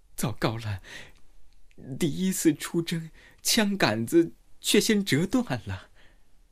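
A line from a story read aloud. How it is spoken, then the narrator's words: Startled sigh. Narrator (Chinese): 她吃惊之余，叹道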